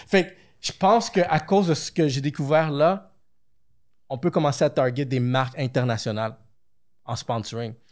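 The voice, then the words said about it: Québécois French accent. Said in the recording (French): “nous, les Québécois, les podcasteurs québécois ont quelque chose d'unique ... C'est quoi cet accent? ... C'est vrai qu'on a un accent différent.”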